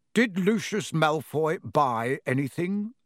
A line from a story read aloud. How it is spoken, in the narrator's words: said Mr